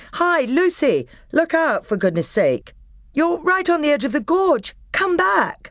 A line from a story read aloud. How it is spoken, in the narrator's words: she heard the voices of the others shouting